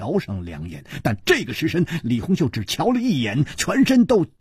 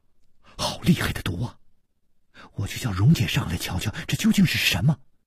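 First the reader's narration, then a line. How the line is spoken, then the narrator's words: Trembling voice. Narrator (Chinese): 李红秀颤声说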